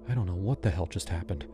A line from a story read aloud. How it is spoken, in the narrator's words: I whispered